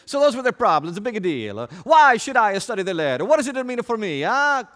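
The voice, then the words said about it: Italian visitor to Greece accent. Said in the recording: “in that Italian visitor to Greece accent that you like to use”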